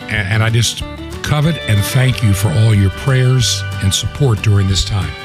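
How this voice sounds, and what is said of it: Weak, strained voice. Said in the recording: “My voice is still got a few problems, but it's beginning to get better if I don't push it too hard ... it's got a little bit weaker”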